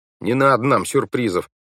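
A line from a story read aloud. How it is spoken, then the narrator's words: Muttering. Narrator (Russian): пробурчал Клаус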